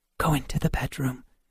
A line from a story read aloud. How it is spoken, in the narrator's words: Helen whispered